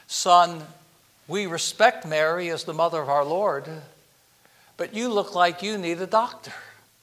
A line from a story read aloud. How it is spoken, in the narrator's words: The chaplain gently said to the soldier